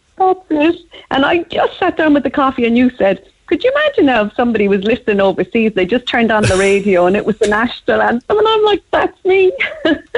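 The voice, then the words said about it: Cork Irish accent. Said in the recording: “home is always Cork ... You can hear by the accent, that'll never change either”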